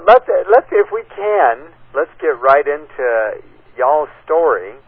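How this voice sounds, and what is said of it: Put-on Southern accent. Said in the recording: “Little bit of Southern accent there for you”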